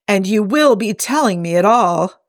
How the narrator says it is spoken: Hobb demanded

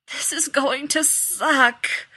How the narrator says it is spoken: Rodney moaned

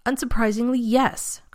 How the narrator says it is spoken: Carson snapped back

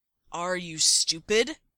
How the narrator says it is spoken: Derek growls right into Stiles' face

